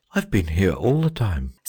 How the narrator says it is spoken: said the phoenix, yawning politely behind its claw

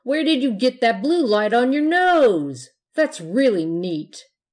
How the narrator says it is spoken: shouted one of the ghosts

